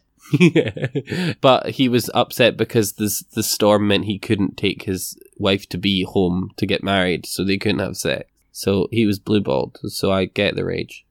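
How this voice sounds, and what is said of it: Dry, deadpan sarcastic delivery. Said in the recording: “That was sarcasm ... You just delivered it in such a way ... I just have such a, what's it called, a dry humor.”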